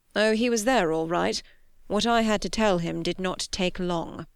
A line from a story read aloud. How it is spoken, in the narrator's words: said grimly